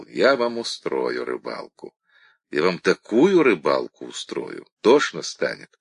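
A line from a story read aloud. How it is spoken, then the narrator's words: Cold, calm promise. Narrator (Russian): Степан холодно, спокойно пообещал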